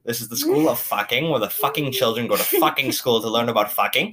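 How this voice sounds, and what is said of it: Weird put-on German accent. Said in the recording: “I'm defaulting to, like, some weird shitty German accent.”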